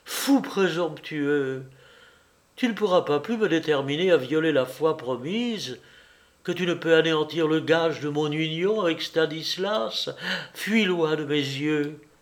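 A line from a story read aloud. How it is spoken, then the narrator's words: Indignant outcry. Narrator (French): s'écria-t-elle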